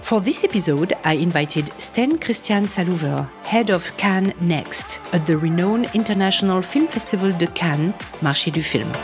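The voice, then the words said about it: French accent. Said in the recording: “hosting this podcast with a French accent.”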